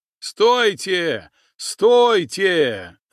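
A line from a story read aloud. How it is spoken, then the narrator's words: Chieftain shouting. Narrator (Russian): закричал атаман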